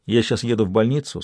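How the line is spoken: Plain. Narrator (Russian): сказал Арман

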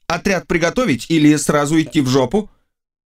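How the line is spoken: Loud, for onlookers. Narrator (Russian): Я сказал громко, чтобы лучше слышали любопытствующие

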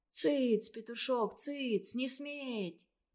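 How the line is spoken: Hoarse mumbling. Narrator (Russian): Санька хрипло забормотал

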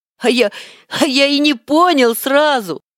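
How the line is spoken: Joyful laugh, hedgehog. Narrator (Russian): Рассмеялся ёжик, который очень обрадовался встрече с другом

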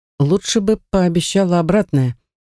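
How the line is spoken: Sad moaning inner voice. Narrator (Russian): печально стонет мой внутренний голос

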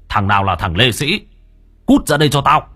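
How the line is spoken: Shouted. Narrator (Vietnamese): Ông Chí quát

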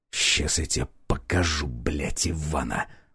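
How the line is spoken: Hissing. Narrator (Russian): прошипел я

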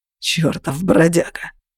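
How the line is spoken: Hoarse agitated voice. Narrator (Russian): заговорил он охрипшим от волнения голосом

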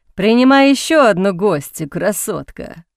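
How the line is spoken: Laughing. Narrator (Russian): хохотнул Харпер

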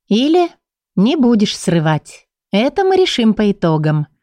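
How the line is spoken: Mockingly sweet voice. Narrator (Russian): издевательски сладким голоском проговорила она

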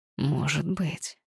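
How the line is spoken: Whispered. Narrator (Russian): снова прошептал

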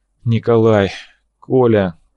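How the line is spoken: Bitter breathed exclamation. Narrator (Russian): Косухин выдохнул

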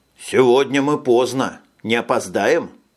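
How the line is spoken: Plain. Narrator (Russian): спросил Джек

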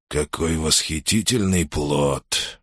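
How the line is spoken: Broken whisper. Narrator (Russian): шептал Сулла прерывисто

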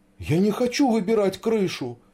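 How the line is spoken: Frightened babbling. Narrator (Russian): испуганно пролепетал Сашка

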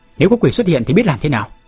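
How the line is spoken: Angry shout. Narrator (Vietnamese): Tề Trường Trinh tức giận quát

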